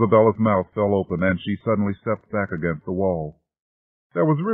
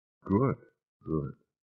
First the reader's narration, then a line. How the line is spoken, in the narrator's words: he whispered